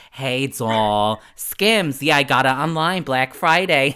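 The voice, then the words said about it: Put-on New Jersey accent. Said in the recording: “doing the Jersey bit ... the Jersey accent”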